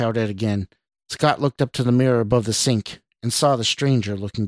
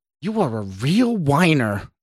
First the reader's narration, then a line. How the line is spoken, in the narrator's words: snarled back